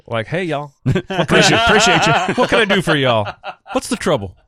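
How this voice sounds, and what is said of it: Put-on Southern American accent. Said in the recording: “I always slipped in a little Southern accent”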